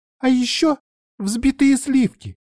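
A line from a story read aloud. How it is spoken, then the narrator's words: Squeaked. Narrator (Russian): пискнула Мика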